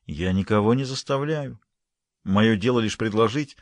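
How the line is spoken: Gentle relenting reminder. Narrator (Russian): Верховная смилостивилась и мягко напомнила

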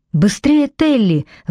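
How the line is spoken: Exclaiming. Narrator (Russian): воскликнул Зейн

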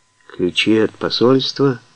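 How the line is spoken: Hoarse rasp. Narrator (Russian): прохрипел он

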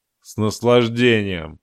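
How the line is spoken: Gloomy reply. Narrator (Russian): мрачно ответил Таран

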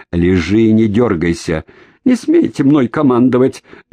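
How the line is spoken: Yelling over engine noise. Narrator (Russian): заорал Шеринг, перекрикивая рев мотора и трескотню автомата

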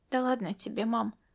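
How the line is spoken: Upset mumble. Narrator (Russian): пробормотала расстроенная Ирида

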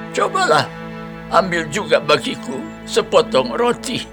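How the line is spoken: Calling out again. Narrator (Indonesian): ia berseru lagi

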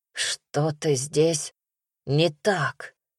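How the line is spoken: Hoarse wheeze. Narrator (Russian): прохрипел

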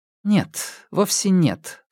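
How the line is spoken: Calm answer. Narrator (Russian): спокойно ответила Лэйжун

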